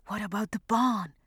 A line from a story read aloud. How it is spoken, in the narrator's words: Philomène whispered to Aureline